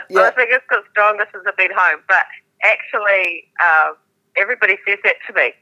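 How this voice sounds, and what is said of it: New Zealand accent. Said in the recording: “you still managed to maintain your Kiwi accent ... You never lost your accent”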